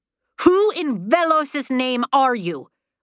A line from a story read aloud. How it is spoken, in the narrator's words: Mallory cried